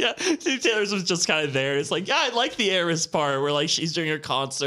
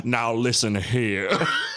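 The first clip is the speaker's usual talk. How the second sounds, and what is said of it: Put-on Kentucky accent. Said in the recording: “Still doing his dumb Kentucky accent.”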